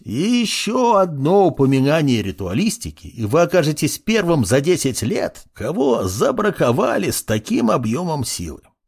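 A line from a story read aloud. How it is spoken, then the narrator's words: Old man's creaky voice. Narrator (Russian): проскрипел старичок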